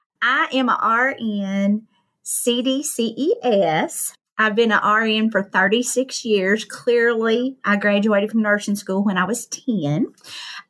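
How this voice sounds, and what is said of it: Hillbilly accent. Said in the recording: “my hillbilly accent”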